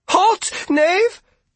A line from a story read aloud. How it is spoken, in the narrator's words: she cried, but it came out as more of a question